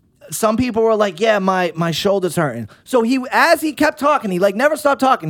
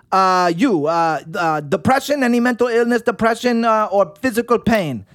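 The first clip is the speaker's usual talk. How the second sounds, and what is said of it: Fast, heavy put-on Russian accent. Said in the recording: “his accent was so fucking heavy. You could not understand it ... he was speaking super fast, and his Russian accent was crazy”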